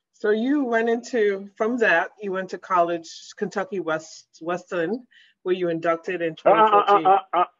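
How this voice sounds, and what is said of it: Caribbean accent. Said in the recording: “my Caribbean accent ... There's some, you know, nuances in the accent, okay? My Caribbean accent.”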